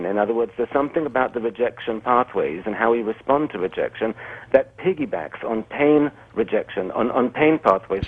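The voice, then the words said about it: Quasi-European accent. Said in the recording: “this accent makes you sound like you're really official ... like you're Freud or something ... a quasi-European accent”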